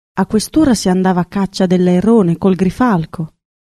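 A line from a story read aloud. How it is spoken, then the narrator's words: Sighing. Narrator (Italian): E sospiravano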